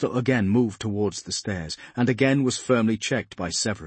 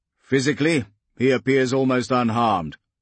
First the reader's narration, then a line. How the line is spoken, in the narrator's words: Phobos said